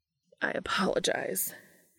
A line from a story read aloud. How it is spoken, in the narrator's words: he said in a strained tone